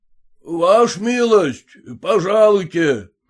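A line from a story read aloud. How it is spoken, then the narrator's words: Peasant shouting. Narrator (Russian): кричал мужик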